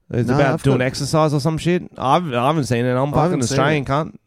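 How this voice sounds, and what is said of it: Chinese accent. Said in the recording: “I've got a Chinese accent, but I'm still fucking Australian.”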